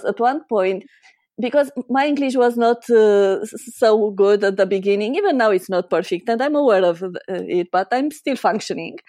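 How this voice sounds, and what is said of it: Slight non-native English accent. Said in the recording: “I love your accent ... it's perfect ... the slight accent”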